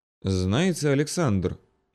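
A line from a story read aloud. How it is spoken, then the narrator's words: Sudden purr. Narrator (Russian): неожиданно промурлыкала черненькая Марина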